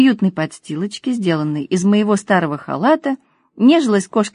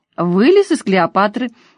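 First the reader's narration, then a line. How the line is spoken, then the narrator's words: Joyful announcement. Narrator (Russian): радостно сообщила Кристина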